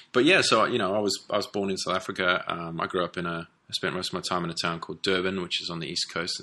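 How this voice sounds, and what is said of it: Hybrid South African-English accent. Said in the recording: “hence the slightly weird accent ... this weird hybrid accent that's not quite South African, but not quite English”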